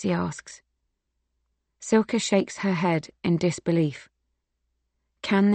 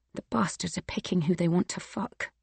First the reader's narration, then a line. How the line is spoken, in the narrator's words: whispering